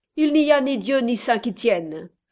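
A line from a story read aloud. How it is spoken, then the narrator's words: Sharp rattling reply, millionaire. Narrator (French): répondit d'un ton sec et perçant, comme le claquement d'une crécelle, l'aimable millionnaire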